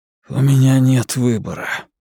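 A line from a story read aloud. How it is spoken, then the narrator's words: Hoarse. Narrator (Russian): неудачник хрипло произносит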